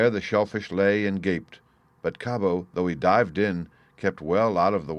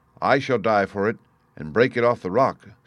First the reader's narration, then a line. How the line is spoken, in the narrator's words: said Cabo